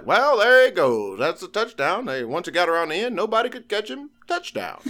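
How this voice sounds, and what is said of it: Old-timey vaudeville-style broadcaster voice. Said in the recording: “your impression of Keith Jackson. It's kind of got a little like hint of like ... Like 1940s like vaudeville.”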